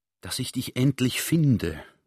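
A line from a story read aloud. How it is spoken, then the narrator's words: Relieved whisper. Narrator (German): flüsterte der General erleichtert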